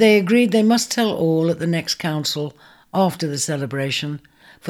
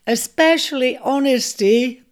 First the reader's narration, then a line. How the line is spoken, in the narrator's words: piped all three together, laughing raucously at the prospect of the Jew Collective's reprimand